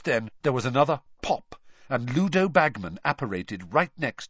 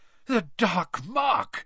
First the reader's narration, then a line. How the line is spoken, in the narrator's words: he panted